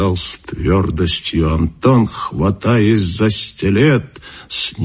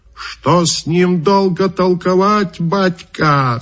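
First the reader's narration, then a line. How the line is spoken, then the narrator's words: Shouted. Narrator (Russian): закричал Каракача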